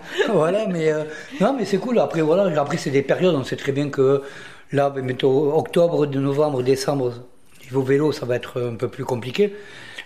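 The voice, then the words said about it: Southern French accent. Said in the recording (French): “moi je suis un mec du sud ... On a reconnu votre accent.”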